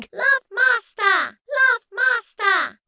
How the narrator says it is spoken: screamed, screaming

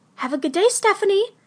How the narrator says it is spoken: Mom chirped

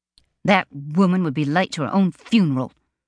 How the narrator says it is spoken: Delaine spat out

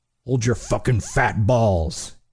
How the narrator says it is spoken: he growled

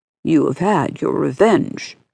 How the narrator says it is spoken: continued Mademoiselle Virginie, coolly

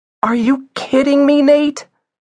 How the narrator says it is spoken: cried Isabel

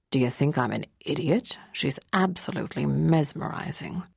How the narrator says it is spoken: Jason muttered

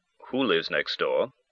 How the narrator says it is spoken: inquired in a perfunctory tone after a pause

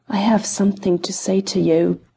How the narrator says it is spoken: he whispered

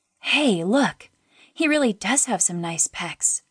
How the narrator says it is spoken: murmured

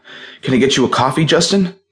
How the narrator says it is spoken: Tracy panted

